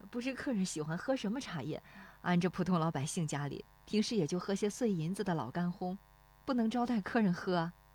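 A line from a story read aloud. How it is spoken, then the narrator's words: Shy woman, low voice. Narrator (Chinese): 那妇女笑得有些羞涩，低声说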